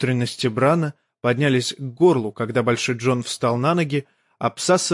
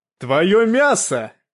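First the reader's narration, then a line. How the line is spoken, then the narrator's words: Roar. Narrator (Russian): взревел он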